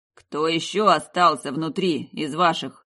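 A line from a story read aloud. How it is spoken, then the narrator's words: Growled. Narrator (Russian): Он буквально рыкнул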